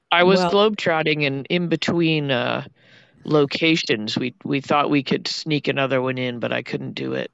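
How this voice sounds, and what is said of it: Slightly raspy voice. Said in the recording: “You do sound a little raspy.”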